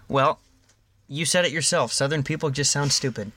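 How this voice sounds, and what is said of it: Put-on Southern accent. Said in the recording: “You don't get the excuse because you're just doing an accent.”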